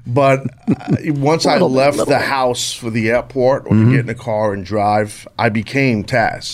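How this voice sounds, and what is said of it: New York accent. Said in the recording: “I born and raised in New York, if you couldn't tell from my accent.”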